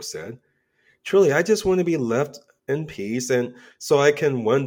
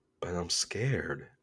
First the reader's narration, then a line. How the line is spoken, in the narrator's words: he whispered